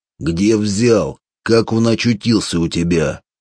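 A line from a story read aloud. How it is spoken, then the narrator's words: Menacing shout. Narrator (Russian): Он грозно крикнул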